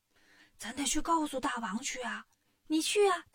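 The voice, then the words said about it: Quiet, hushed whispering voice. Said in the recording (Chinese): “小声商量”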